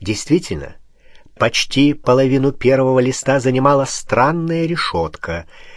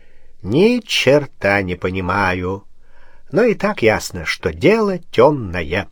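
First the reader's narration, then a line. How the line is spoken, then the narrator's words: Drawled. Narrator (Russian): Барон протянул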